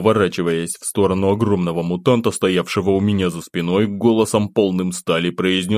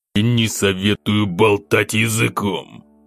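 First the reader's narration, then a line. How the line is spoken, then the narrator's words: Growl. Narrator (Russian): рыкнул я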